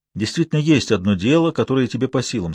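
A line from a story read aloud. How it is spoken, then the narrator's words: Plain. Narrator (Russian): сказал я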